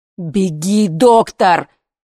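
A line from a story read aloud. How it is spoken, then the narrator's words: Shouted. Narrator (Russian): крикнул Сережа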